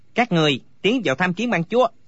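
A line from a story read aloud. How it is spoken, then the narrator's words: Shouted command. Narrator (Vietnamese): Phó Hưng Chủ quát bảo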